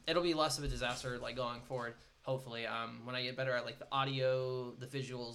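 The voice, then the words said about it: Rough, worn voice. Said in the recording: “my voice is getting kind of rough. I've been talking for a little bit.”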